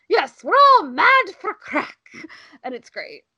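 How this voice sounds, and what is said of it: Poor put-on Irish accent. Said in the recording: “please forgive my terrible Irish accent.”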